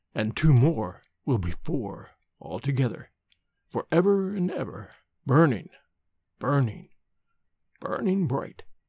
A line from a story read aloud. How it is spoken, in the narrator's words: he said, his voice lowering strangely